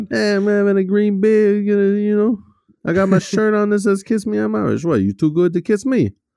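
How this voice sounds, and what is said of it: Strong put-on New York accent. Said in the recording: “a dude with like a strong New York accent”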